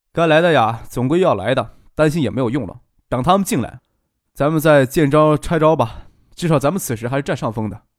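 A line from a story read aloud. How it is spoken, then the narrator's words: Said with a smile. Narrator (Chinese): 张克笑了笑，说道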